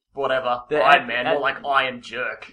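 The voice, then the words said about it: Put-on New York accent. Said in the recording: “That's my New York accent.”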